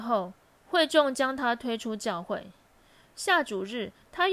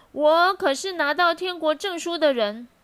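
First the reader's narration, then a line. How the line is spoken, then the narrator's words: Shouting. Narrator (Chinese): 他却继续喊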